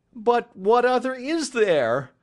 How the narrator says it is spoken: cried the banker with a gesture of despair

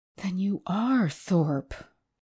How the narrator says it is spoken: gasped, yet somehow without overwhelming surprise

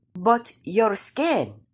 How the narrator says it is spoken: Brother Rabbit exclaimed, pretending to be shocked

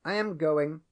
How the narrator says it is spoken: said Grish Chunder

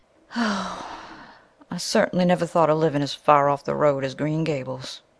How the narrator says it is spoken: sighed Mrs

